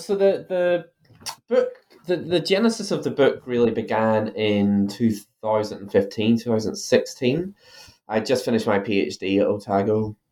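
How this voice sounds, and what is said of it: Irish accent. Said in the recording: “you might be able to tell from my accent that I'm originally from Ireland”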